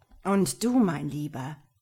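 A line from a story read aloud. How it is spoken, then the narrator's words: Quiet menacing hiss. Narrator (German): zischte leise und bedrohlich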